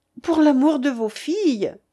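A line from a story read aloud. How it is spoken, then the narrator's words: Exclaimed. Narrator (French): s'écria-t-elle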